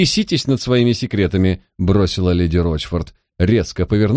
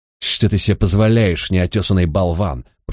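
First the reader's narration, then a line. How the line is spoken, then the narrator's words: Hissing. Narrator (Russian): прошипел он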